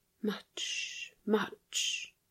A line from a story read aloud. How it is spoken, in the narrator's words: she whispered